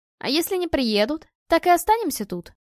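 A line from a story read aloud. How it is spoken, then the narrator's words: Snide. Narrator (Russian): ехидно уточнила Наталья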